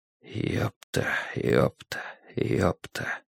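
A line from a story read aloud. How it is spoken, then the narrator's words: Rhythmic muttering. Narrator (Russian): бормотал Страйк в такт своим шагам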